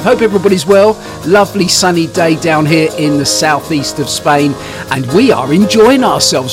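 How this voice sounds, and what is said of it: Southern English twang. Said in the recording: “my southern twang”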